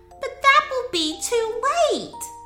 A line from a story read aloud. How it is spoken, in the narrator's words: Myla exclaimed and started to cry